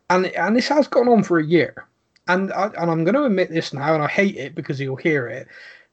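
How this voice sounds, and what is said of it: Rural West Country English accent. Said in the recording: “he's a carrot cruncher is one of the more polite things that he said about my accent”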